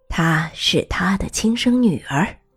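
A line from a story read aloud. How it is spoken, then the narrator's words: Slightly lowered voice. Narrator (Chinese): 他略微放低声音，对艾莉诺说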